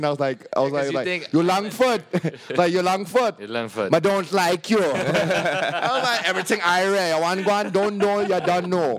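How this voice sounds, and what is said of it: Put-on Jamaican accent. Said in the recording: “you sound Jamaican ... why do I sound Jamaican?”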